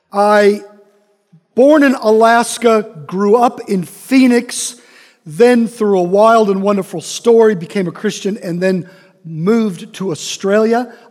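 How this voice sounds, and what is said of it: Slight accent. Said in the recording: “Some of you might hear a little bit of an accent.”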